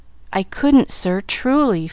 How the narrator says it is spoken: faltered Pollyanna

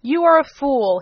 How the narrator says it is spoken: he exclaimed

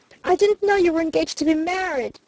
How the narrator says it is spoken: she cried out passionately

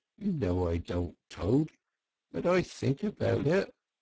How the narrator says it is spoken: he added rather pathetically in a lower tone

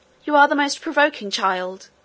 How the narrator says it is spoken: cried the nurse

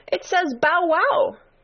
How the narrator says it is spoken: cried a daisy

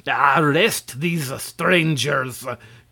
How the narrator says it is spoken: commanded Quitoful, in a voice like a roar

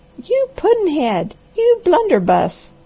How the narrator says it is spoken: cried Granny

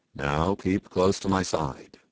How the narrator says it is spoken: said the sailor

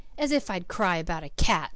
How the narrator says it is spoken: scoffed

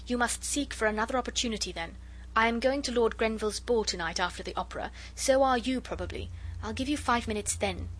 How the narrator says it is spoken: she said impatiently

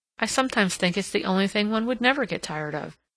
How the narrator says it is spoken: she replied

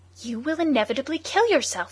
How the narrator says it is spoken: he cried

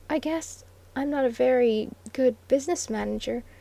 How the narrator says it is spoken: faltered the red-lipped voice with incongruous pathos

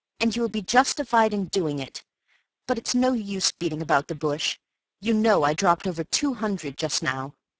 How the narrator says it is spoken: I cried bitterly

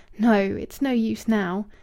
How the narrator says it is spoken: moaning

